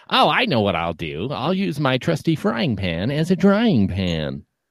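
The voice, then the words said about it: Whiny cartoon character voice. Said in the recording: “your Brock impression? ... that's how Brock talks in my brain ... Having your eyes closed doesn't affect the pitch of your voice ... he's kind of whiny”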